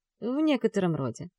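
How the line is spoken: Calm. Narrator (Russian): спокойно произносит он

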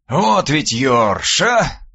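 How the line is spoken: Sighing. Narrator (Russian): вздохнул мой собеседник

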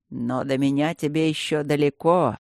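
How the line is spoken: Triumphant snort. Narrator (Russian): Торжествующе хмыкнул блакариец

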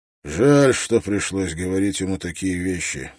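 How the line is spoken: Sighing. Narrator (Russian): вздохнул Строн

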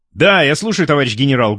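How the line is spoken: Loud. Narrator (Russian): громко сказал

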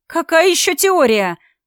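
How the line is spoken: Two voices shouting together. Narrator (Russian): в унисон закричали мы с соседкой

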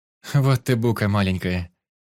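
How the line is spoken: Laughing. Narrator (Russian): Настя рассмеялась

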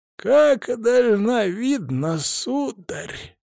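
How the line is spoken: Wheezing old man. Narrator (Russian): просипел дедок

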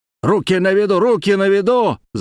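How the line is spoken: Loud yell. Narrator (Russian): заорал

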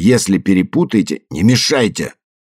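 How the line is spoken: Snapping retort. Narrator (Russian): огрызнулся Морнингстар

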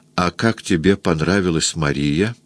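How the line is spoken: Quiet, smiling, altered voice. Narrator (Russian): Она, улыбаясь, спросила тихо, изменившимся голосом

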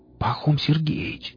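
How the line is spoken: Whisper. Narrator (Russian): прошептал Рамир

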